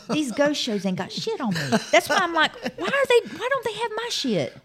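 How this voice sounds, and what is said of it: Mississippi accent. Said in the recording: “my accent... The accent... The Mississippi accent.”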